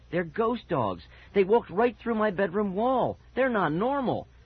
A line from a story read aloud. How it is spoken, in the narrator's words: Mickey cried